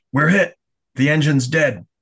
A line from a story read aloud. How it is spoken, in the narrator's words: Shimoda's driver barked